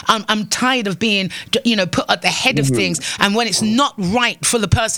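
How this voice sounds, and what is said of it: British accent. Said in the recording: “my fake or my British accent”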